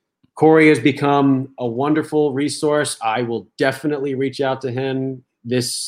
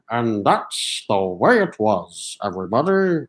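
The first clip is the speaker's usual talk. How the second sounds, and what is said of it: Imitates a newscaster's voice. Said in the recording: “I will do my Walter Cronkite impression.”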